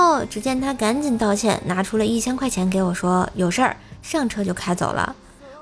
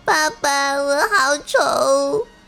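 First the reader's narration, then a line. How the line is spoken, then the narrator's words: Crying little girl. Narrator (Chinese): 女儿边哭边说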